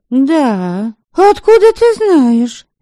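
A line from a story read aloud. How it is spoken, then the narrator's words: Astonished exclamation. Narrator (Russian): воскликнула изумленная утушка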